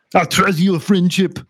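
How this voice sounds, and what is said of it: Bad Arnold Schwarzenegger impression. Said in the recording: “a very bad impression of Arnold Schwarzenegger”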